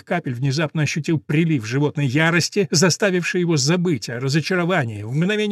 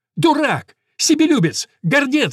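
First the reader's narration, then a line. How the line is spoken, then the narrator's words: Breathless shouting. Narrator (Russian): закричал он, с трудом переводя дух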